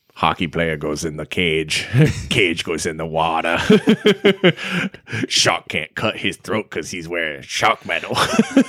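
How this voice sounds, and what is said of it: Poor imitation of a movie character. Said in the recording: “That's a horrible impersonation of that moment in Jaws.”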